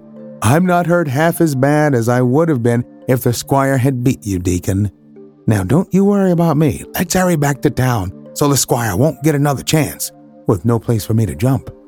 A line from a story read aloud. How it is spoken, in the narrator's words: chirped cheerily